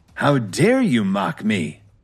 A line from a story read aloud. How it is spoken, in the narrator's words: Meriwether snarled